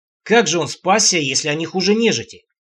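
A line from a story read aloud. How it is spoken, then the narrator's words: Doubtful deep voice. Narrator (Russian): недоверчиво пробасил его приятель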